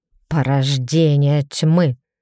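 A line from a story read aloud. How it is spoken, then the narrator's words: Through gritted teeth. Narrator (Russian): Деревель процедил сквозь зубы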